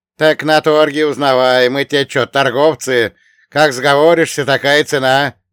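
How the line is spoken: Cheerful snort. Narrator (Russian): весело скались, хмыкнул Елисей

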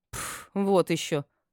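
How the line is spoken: Snorting. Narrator (Russian): фыркнула я

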